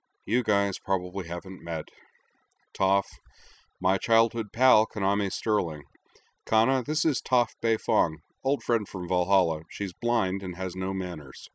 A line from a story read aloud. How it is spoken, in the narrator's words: Corwin gave a long, suffering sigh and said